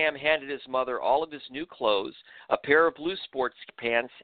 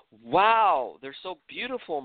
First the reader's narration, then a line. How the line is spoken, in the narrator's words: Maral exclaimed